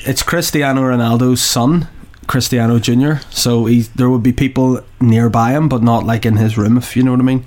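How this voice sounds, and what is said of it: Scottish accent. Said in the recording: “I'm being thrown by the Scottish accent”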